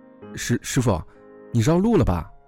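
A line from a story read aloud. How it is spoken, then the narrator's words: Shout. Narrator (Chinese): 我喊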